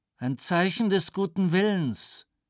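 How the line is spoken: Cold. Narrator (German): sagte Flieger kalt

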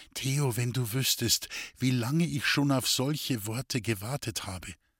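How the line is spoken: Whispered. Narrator (German): flüsterte

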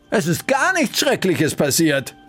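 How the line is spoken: Cheerful call. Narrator (German): rief Bertha vergnügt

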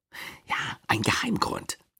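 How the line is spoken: Mysterious whisper. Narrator (German): flüsterte Louis mit mysteriöser Stimme

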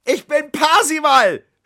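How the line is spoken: Shouting upward. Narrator (German): schrie er zum Fenster hinauf

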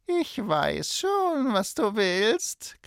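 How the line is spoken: Croaking, dreadful witch voice. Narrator (German): krächzte die Hexe mit schrecklicher Stimme

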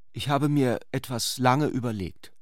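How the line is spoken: Hesitant. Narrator (German): fuhr sie zögernd fort

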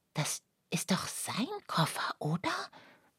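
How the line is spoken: Whispered. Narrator (German): flüsterte Lucia

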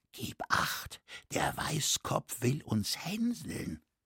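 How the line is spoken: Whispered to him. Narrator (German): flüsterte ihm zu

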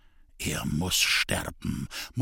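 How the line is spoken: Quiet murmur. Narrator (German): murmelte leise

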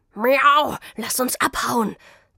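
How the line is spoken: Hissed. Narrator (German): zischte er Zelda zu

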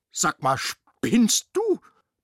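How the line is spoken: Roar. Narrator (German): brüllte Rudi

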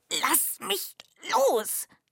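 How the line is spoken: Hissing. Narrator (German): zischte Myh

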